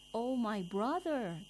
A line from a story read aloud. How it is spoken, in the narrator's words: the first man at once cried out